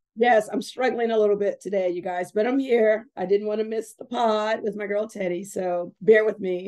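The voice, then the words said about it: Sick, weak voice from a cold. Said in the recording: “You can hear it in her voice. ... I will try to speak loud, but I am fighting a little bit of a cold.”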